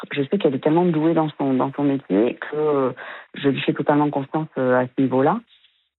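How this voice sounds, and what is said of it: Southwest French accent. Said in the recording (French): “votre joli accent du sud-ouest de Bordeaux ... on l'entend, bien sûr, on l'entend”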